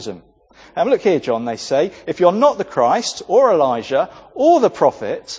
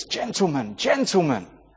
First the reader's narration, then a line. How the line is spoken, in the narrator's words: almost out of control as he whispered